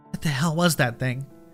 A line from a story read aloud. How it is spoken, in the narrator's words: Dana asked, her voice trembling